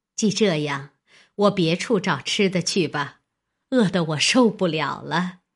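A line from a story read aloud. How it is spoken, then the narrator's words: Laughing. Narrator (Chinese): 尤氏笑道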